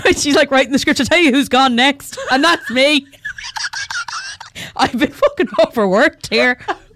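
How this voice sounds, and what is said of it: Put-on Irish accent. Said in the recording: “she becomes an Irish man ... That's your one impression ... It's the only accent I can do”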